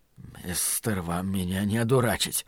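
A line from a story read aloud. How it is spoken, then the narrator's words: Muttered. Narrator (Russian): пробормотал Ллойд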